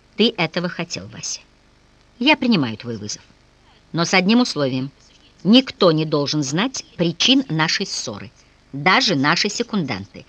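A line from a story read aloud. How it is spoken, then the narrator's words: Calm, out of breath. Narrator (Russian): Еще переводя дыхание, Николай спокойно изрек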